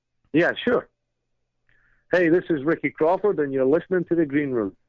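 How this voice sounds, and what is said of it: Speaks with a noticeable accent. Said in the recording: “I really dig your accent.”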